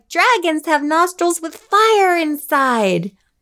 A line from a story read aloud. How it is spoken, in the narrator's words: She cried